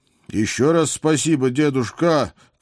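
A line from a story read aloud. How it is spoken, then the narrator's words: Elated shout. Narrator (Russian): крикнул я, чувствуя, как за спиной вырастают крылья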